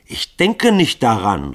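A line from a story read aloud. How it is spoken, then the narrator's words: Calling out. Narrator (German): rief Grunja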